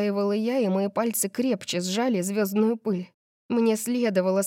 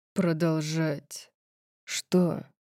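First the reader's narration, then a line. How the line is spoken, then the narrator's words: Cold question. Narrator (Russian): Холодно спросил он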